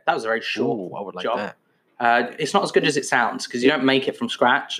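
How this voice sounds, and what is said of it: Posh English accent. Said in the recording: “from my voice, my voice is relatively posh in itself”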